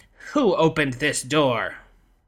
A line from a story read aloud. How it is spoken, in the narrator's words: Auntie Hua glowering at them, and finally growled